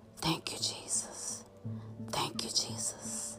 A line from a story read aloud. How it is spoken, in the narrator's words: whispering